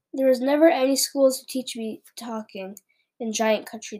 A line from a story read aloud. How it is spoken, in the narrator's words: the BFG said sadly